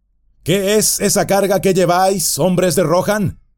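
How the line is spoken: Shouted. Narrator (Spanish): gritó

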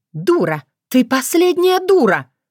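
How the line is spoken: Mother shouting. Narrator (Russian): кричала мать

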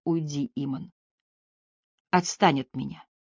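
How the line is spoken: Whispered. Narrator (Russian): она прошептала

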